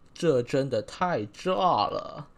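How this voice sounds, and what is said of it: Imitated mainland Beijing-style accent. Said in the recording (Chinese): “要认真听啊，因为这个必须有一些语调上的转换 ... 模仿一下大陆人的口音，就是呃，有点比较北京的那种感觉 ... 也可以讲的慢一点”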